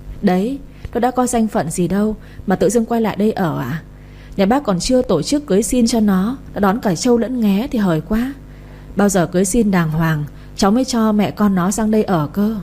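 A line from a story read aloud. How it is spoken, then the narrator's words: Laughing. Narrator (Vietnamese): Chị Như bật cười nói tiếp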